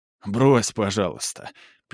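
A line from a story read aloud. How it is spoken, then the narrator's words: Laughing interruption. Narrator (Russian): перебил ее брат, смеясь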